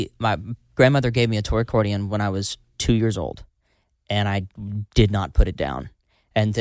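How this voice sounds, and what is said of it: Usual voice. Nothing is said of it.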